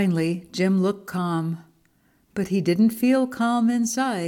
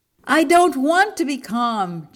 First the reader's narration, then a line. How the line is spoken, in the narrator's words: Jim shouted